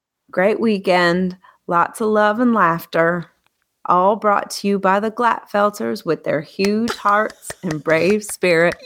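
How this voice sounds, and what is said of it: Put-on Southern twang. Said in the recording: “say it again with the southern twang”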